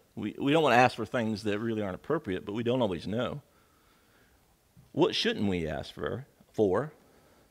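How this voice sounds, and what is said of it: Noticeable accent on certain words. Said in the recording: “my accent comes in”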